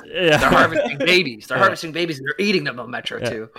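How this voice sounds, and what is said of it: Imitates another person's voice. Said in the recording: “my impersonation of Alex Jones is the same as my impersonation of Obama”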